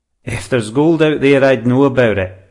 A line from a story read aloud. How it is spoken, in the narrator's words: the beard chuckled